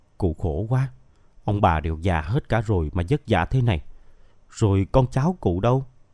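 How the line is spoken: Soft gentle question. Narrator (Vietnamese): Miên hỏi khẽ

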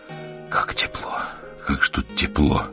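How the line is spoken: Whisper. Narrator (Russian): прошептал он

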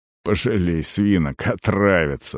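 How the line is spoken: Grumbling mutter. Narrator (Russian): буркнул Арон

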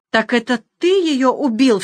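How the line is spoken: Sudden cry. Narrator (Russian): вскрикнул он

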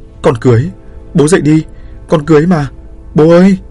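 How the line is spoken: Desperate loud wail. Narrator (Vietnamese): Cô gào lớn

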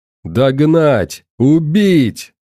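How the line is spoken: Roared. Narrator (Russian): взревел Владислав

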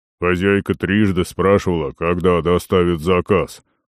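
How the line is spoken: Booming gatekeeper. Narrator (Russian): прогудел привратник

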